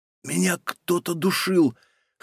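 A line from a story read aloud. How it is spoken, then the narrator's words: Hoarse voice. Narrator (Russian): хриплым голосом проговорила Софья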